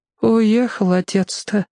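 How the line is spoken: Sad grandmother. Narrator (Russian): печально сказала бабушка

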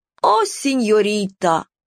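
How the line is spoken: Rueful drawl, musketeer. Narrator (Russian): сокрушенно протянул мушкетер

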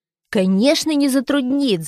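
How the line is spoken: Shout. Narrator (Russian): закричал Витя

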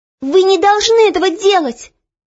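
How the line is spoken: Sudden impulsive shout. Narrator (Russian): Неожиданно для себя самой вдруг крикнула Оля

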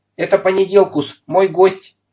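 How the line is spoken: Shouting. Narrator (Russian): крикнул господин Пепперминт

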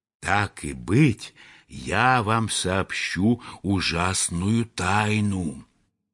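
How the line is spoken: Secretive whisper. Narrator (Russian): шепнул ему по секрету

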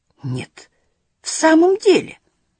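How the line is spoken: Delighted exclamation. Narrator (Russian): воскликнул откровенно обрадовавшийся господин Марабу

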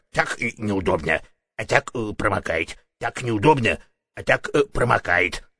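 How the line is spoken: Muttering. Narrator (Russian): бормотал он

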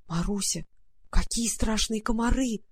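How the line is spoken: Terrified whisper. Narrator (Russian): прошептала Варя в ужасе

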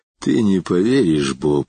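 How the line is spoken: Sighing. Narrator (Russian): вздохнул он

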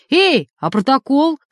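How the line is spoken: Shout, then breaking off. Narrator (Russian): крикнул Ростик, забыв, с кем имеет дело, и осекся

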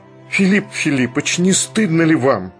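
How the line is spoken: Sincere fervent exclamation. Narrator (Russian): искренне воскликнул пламенный Барменталь

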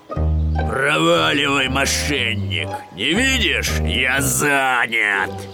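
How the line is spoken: Big bear growling. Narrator (Russian): большой гризли зарычал

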